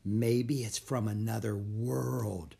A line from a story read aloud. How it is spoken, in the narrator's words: whispered Annie